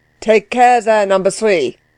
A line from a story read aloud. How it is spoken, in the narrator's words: roared Delwig, affecting not to know who number three was, and glad of an opportunity of calling the parson to order